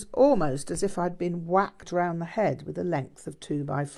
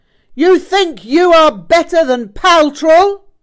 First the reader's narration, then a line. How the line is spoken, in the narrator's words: suddenly and with great force he yelled